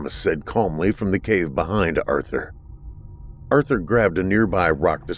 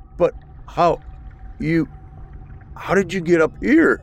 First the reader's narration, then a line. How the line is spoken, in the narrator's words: he stammered